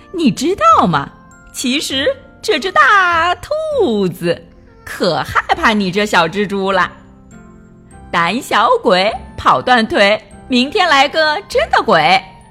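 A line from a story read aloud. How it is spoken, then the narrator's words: Cheerful singing. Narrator (Chinese): 跳跳笑嘻嘻的唱道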